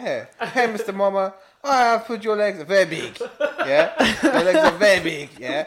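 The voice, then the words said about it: Mock Chinese accent. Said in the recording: “That is not a Chinese accent.”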